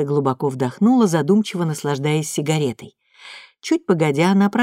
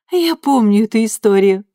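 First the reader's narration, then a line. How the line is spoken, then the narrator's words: Laughing. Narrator (Russian): рассмеялась Люсия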